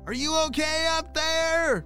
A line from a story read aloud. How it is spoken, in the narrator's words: shouted his neighbor